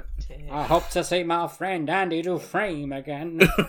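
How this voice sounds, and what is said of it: Morgan Freeman impression. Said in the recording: “That's my Morgan Freeman impression.”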